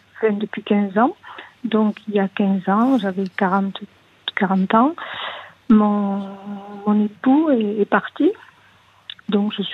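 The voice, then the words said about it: Small voice, southern French accent. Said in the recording (French): “Vous avez une toute petite voix ... Avec un petit accent euh, du sud ah, De Toulouse”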